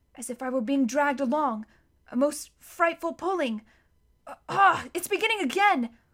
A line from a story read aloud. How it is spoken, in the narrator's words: said Edmund in a breathless voice